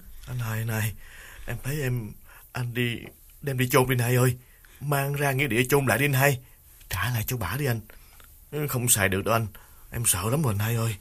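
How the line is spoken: Trembling plea. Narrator (Vietnamese): Đào run run chỉ chiết nói

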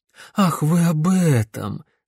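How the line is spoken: Relieved exhale. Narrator (Russian): с облегчением выдохнул профессор Живодан

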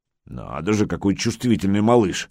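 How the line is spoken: Grumbling. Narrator (Russian): ворчал мастер

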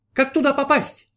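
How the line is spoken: Newborn shouting. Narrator (Russian): закричал новорожденный 19-й, уже исполненный знания

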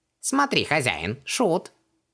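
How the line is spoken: Snorting chuckle. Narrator (Russian): хмыкнул Хубаксис

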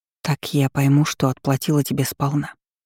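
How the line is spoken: Whisper. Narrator (Russian): прошептала я

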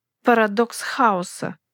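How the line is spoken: Muttered through clenched teeth. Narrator (Russian): процедил сквозь зубы

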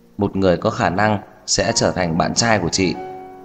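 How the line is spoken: Smiling. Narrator (Vietnamese): cong môi mỉm cười

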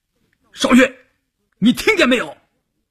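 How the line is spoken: Shouting. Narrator (Chinese): 关山林喊

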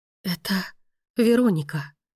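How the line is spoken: Whisper. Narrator (Russian): прошептала Мия

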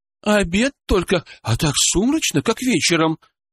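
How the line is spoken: Anxious woman. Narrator (Russian): взволнованно произнесла женщина

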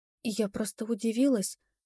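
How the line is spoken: Barely audible reply. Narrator (Russian): едва слышно ответила я

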